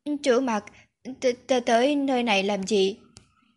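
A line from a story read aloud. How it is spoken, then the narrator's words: Frightened stammering question. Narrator (Vietnamese): Lòng cậu phát run, lắp bắp hỏi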